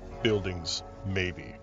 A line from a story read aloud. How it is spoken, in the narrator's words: Takum muttered